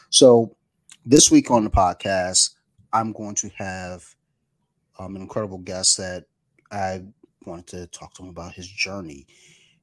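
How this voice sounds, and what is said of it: Strained, worn-out voice. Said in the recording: “I can't even get the high pitch right now. My voice is all jacked up.”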